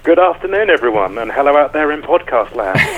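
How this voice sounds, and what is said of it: English accent. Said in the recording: “I'm detecting a bit of what we Americans would term an accent. ... I'm English”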